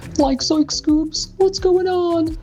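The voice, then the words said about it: Cartoon character voice impression. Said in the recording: “my impression of a brief conversation between Shaggy and Scooby-Doo ... great Scooby impression ... I've never heard a more Scooby-Doo impression in my life”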